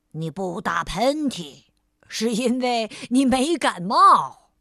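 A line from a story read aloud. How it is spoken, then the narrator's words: Voice from behind. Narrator (Chinese): 有个声音在他身后响起来了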